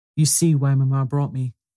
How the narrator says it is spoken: his answered

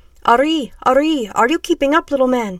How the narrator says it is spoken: shouted out a big, dark-skinned man

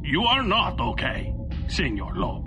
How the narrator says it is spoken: Gatto said

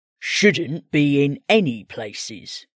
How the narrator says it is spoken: Wolf grumbled

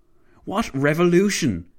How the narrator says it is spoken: Clavel barked

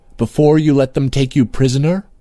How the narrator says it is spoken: said Princess Nahuadwar sharply

